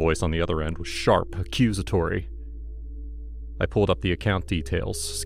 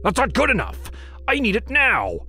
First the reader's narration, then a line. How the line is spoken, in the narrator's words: barked